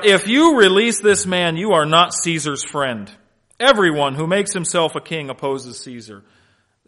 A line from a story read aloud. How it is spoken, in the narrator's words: the Jews cried out